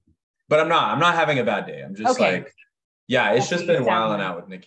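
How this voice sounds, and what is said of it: Usual voice. Nothing is said of it.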